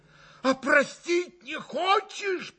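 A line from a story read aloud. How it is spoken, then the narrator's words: Frantic reproachful shout. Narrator (Russian): прокричал Митя Грушеньки с безумным упреком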